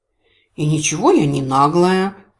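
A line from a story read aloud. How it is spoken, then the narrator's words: Offended quiet mutter. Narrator (Russian): обиженно буркнула я, благоразумно постаравшись, чтобы мои слова прозвучали как можно тише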